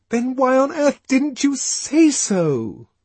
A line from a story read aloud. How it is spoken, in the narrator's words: she cried